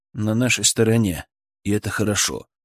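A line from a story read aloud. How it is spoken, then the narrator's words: Even, level voice. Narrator (Russian): ровным голосом ответил я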